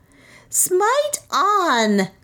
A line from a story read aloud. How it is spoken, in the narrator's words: screamed Nam